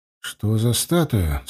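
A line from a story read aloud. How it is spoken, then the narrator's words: Quiet question. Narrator (Russian): спросил я тихо Славку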